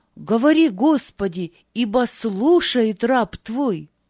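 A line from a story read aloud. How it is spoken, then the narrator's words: Loud. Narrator (Russian): сказал Самуил громко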